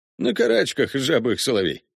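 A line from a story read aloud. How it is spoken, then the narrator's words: Chuckling. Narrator (Russian): хохотнул Коннор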